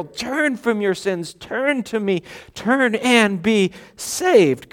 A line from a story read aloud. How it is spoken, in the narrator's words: God pleading